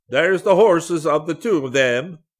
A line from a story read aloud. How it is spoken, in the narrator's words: yelled at the top of his voice